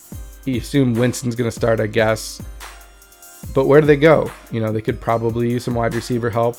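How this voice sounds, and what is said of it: Hoarse, fading voice. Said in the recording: “Boy, I'm losing my voice here.”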